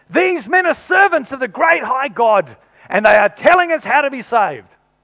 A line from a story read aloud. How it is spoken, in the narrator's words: shouting